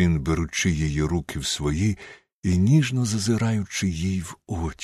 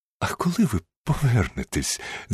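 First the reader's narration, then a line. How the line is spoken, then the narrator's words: Embarrassed laugh. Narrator (Ukrainian): засміялася, почервонівши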